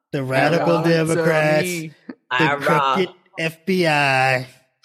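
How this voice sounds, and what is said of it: Bad imitation of another person's voice. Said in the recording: “bad Trump impression”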